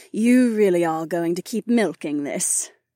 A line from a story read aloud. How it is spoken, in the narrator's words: Kat sighed